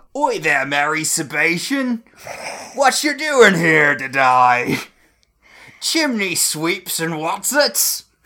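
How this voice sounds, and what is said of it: Exaggerated mock Cockney accent. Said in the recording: “It's very Dick Van Dyke and Mary Poppins.”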